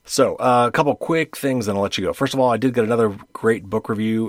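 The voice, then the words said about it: Slightly hoarse voice. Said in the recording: “my voice is getting a little hoarse”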